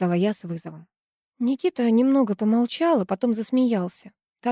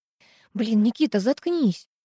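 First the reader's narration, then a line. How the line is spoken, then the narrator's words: Hissed. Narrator (Russian): зашипела я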